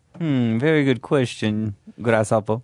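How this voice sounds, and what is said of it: Put-on unidentifiable accent. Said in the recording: “I don't really know what kind of accent that was.”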